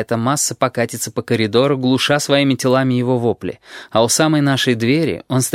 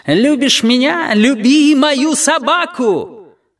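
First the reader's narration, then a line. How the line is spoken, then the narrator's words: Squealed while falling. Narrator (Russian): А слепой, пропахав затылком паркет, тем не менее успел провизжать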